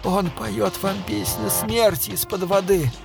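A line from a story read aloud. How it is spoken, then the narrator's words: Hoarse speech. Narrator (Russian): хрипло сказала Саша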